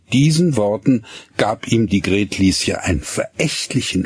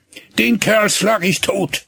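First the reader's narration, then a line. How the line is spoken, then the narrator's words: Vehement shout. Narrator (German): rief er heftig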